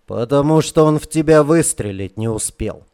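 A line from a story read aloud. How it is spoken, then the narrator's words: Scoffing snort. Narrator (Russian): хмыкнул Северин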